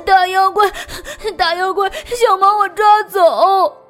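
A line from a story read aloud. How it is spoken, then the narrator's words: Crying. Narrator (Chinese): 瑞奇，哭着说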